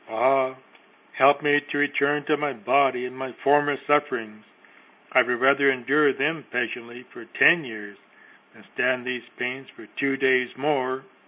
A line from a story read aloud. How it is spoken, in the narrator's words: cried out the poor soul